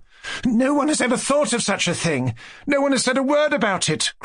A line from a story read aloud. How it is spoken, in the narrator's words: cried Alexandra